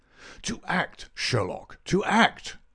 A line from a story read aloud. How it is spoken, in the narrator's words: cried Mycroft